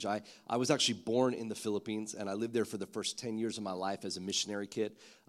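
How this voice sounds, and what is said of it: American accent. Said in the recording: “that's why I have this American accent”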